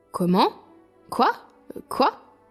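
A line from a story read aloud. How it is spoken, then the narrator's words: Plain. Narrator (French): dit-il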